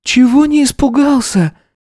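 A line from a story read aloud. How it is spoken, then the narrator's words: Confused squeak, little sister. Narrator (Russian): Не поняв, о чем идет речь, пискнула его сестренка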